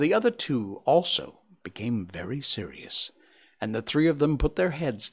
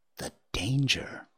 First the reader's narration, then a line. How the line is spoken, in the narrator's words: whispered